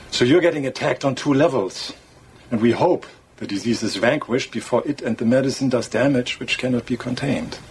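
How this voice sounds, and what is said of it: Very thick foreign accent. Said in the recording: “Your accent's very thick ... your accent makes things sound worse than they actually are ... torturing James Bond”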